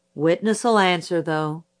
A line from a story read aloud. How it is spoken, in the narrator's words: said Judge Taylor, just as wearily